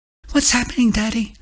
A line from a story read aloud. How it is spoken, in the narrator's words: the little girl squeaked